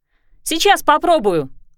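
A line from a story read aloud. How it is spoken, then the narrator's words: Shouting. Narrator (Russian): прокричала помощница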